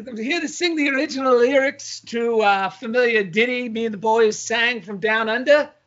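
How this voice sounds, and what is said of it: Mixed Irish Australian English put-on accent. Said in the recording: “you're kind of an interesting accent that combines Irish, Australian, English. A, a little bit of Scottish.”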